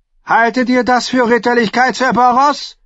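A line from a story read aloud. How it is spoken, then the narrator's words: Angry thundering. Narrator (German): donnerte Tyrion Lannister wütend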